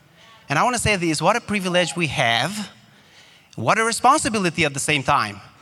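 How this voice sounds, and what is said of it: Slight foreign accent. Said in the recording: “even with an accent, a slight accent”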